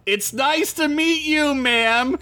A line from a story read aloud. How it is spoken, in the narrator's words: Sid said in an uncomfortably loud tone